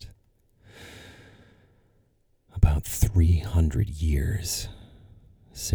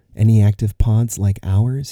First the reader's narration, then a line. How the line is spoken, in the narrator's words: he asked